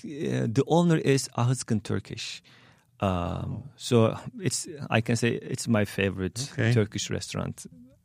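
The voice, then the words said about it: Turkish-accented English. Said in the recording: “when they hear my accent, maybe they change the question ... where am I from”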